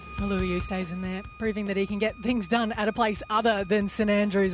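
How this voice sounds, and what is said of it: British English accent. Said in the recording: “I love that accent ... it's so enjoyable ... The British, English, whatever you want to call it, accent is the bacon of accents.”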